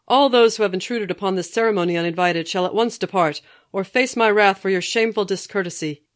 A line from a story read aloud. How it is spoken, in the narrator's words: He then proceeded to bellow out